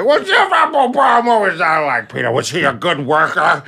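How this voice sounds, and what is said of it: Impression of the speaker's dad. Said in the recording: “I have to do an impression of them to them to get them to listen. Like, my dad is talking”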